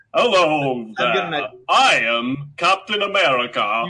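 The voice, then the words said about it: Leonard Nimoy impression. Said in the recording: “Is that a good Leonard Nimoy impression?”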